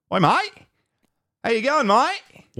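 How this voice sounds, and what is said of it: American doing an Australian accent. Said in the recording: “I was on a roll with my Australian accent ... you're doing an American's take, a rendition of it”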